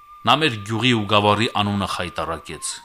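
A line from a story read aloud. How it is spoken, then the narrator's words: Angry chorus of women. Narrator (Armenian): զայրացած վրա տվին հարցներ ու կանայք ամեն կողմից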